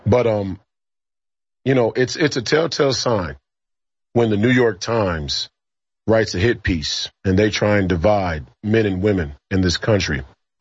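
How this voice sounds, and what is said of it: Slightly hoarse voice. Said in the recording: “yelling at my 13-year-olds at a national basketball tournament, so my voice is a little hoarse.”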